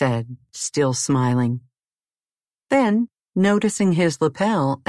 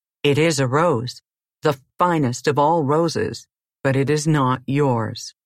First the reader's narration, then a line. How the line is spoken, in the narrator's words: said flatly